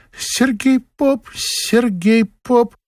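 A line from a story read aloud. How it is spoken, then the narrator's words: Shy squeak. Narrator (Russian): Лида Писаревская по застенчивости пискнула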